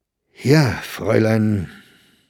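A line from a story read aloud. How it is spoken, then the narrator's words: Hesitant. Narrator (German): sagte er zögernd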